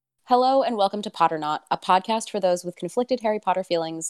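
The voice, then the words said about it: Sick-sounding voice. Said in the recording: “I do apologize for my voice today. I am ill.”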